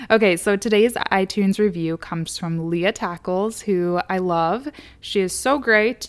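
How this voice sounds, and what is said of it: Hoarse, raspy, tired voice with vocal fry. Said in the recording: “I sound a little hoarse, raspy, vocal fry-y. I am getting over a little bit of a sickness ... my voice is a little tired”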